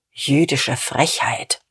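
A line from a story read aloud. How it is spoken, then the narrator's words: Muttering. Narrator (German): murmelte Dieterich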